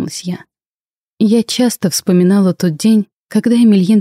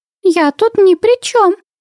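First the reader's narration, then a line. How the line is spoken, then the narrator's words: Flustered squeak. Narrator (Russian): растерянно пискнула Винни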